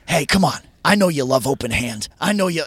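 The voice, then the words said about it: Imitates another person's voice. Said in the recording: “I'm going to do a Ted voice.”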